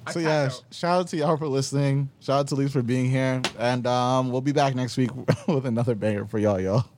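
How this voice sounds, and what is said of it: New York accent. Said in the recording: “you hear my accent. I'm from New York.”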